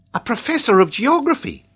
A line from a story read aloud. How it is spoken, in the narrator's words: cried